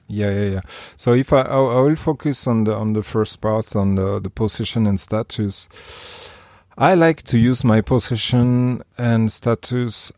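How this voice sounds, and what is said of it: Noticeable foreign accent. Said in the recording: “your super sexy accent ... because of that accent”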